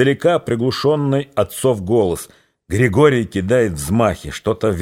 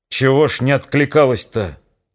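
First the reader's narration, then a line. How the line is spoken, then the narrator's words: Angry yelling. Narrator (Russian): Сердито орет Григорий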